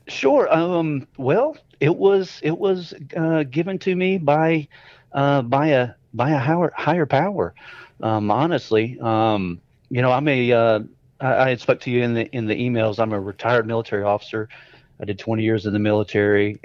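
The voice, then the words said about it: Coastal North Carolina Southern accent. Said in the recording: “you have the accent to match ... This is a North Carolina accent, though ... it sounded more coastal”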